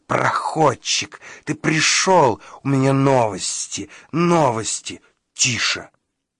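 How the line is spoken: Hissed. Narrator (Russian): зашипела Фритти

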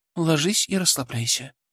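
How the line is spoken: Gentle command. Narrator (Russian): скомандовала она мягко

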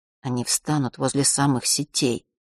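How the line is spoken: Whisper. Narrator (Russian): зашептал Мишка

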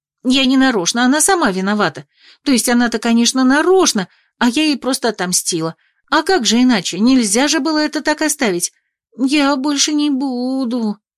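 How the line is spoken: Nervous rapid chatter. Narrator (Russian): тараторила она от нервного перенапряжения

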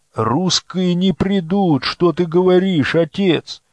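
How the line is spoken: Exclaimed. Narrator (Russian): воскликнул Алей

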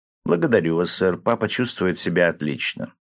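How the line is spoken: Calm girl's answer. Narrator (Russian): девочка совершенно спокойно ответила мне

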